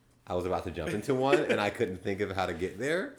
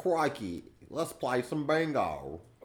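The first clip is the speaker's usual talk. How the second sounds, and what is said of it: Put-on Australian accent. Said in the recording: “What about my Australian accent?”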